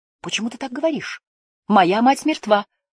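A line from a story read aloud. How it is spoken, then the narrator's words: Shouted. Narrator (Russian): выкрикнула она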